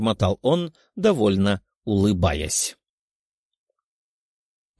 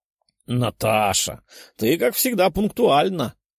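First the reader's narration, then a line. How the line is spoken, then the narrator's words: Big man chuckling. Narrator (Russian): хохотнул крупный мускулистый здоровяк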